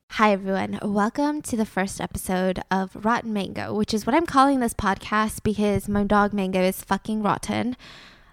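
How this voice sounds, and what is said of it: Put-on British accent. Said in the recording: “Oh no, I have a British accent.”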